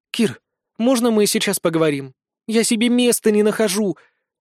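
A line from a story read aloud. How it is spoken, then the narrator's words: Timid plea. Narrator (Russian): робко попросила Вика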